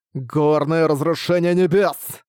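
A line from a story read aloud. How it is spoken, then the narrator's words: Growl with wild laughter. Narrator (Russian): С диким хохотом он прорычал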